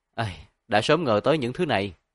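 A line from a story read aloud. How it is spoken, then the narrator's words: Sighing. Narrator (Vietnamese): Tổ An thở dài một hơi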